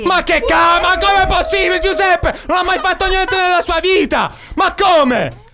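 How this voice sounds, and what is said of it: Shouting. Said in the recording (Italian): “Stai urlando nelle cuffie.”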